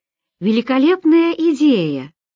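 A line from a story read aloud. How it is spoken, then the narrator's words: Exclaimed. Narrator (Russian): воскликнула Роберта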